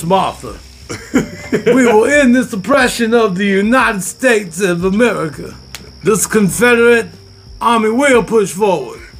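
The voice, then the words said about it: Put-on Southern American accent. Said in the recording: “why George Washington had a southern accent”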